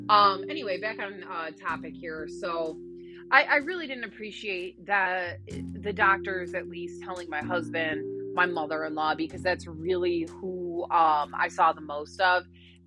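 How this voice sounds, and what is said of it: Raspy voice, throat clearing. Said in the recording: “sorry, my throat has just been like annoying ... I'm sorry for my raspy voice or my continuous clearing my throat here”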